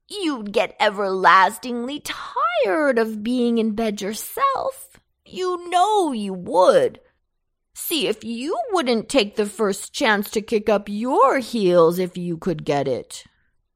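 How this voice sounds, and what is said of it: Whining character voice. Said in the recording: “in a most whining voice”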